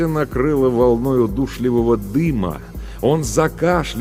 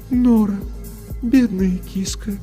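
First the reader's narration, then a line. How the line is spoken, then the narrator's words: Sad. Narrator (Russian): печально произнес голос Софии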